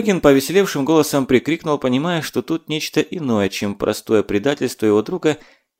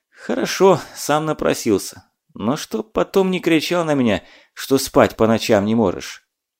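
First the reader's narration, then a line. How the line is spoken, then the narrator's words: Sighing. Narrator (Russian): вздохнул и начал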